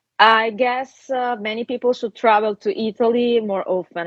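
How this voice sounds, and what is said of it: Italian-accented English. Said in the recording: “Russian accent ... Italian and Russian doesn't sound the same to my ear”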